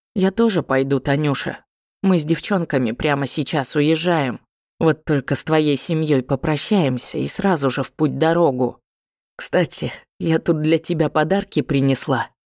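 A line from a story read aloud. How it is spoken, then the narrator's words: Heavy sigh, then quiet. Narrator (Russian): Дранкива тяжело вздохнула и негромко сказала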